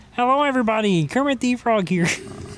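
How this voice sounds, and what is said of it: Kermit the Frog impression. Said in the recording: “Can you hit us with a Kermit impression right now? ... can do a Kermit voice”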